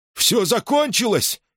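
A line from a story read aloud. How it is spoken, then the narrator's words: Frightened man. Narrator (Russian): испуганно вопрошал мужчина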